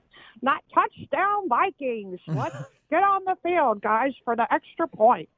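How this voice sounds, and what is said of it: Sportscaster impression, slurred S sounds. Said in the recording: “a Beth Mowins impersonation ... She pronounces her S's with an H ... the bad Sean Connery impression”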